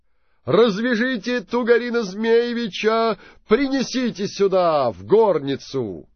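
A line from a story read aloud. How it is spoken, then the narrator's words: Prince shouting orders. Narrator (Russian): Крикнул князь Владимир прислужников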